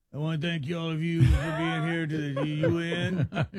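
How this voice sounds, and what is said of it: Wrestler-like imitation of another person's voice. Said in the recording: “You sound like a wrestler... What are you, Macho Man Savage?... What are you, Rocky Balboa?... that's you doing Trump?”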